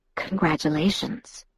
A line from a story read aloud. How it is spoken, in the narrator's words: Edward whispered in my ear